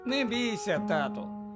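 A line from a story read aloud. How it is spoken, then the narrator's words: Cheerful. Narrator (Ukrainian): весело промовив Фред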